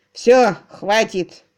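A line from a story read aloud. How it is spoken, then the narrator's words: Grumble. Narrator (Russian): проворчал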